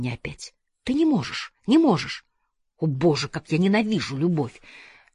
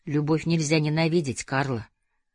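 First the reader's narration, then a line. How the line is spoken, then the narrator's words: Gentle, soothing. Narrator (Russian): увещевал я ее мягко, пытаясь ослабить напряжение, в котором она пребывала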